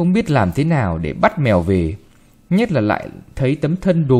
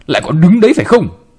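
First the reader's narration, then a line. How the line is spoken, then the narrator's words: Old woman shouting. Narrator (Vietnamese): bà quát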